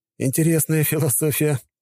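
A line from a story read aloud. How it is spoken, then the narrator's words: Laughing. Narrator (Russian): рассмеялся я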